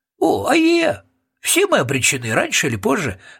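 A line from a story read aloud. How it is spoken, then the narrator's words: Joyful agreement. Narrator (Russian): радостно согласился Роб Всякограб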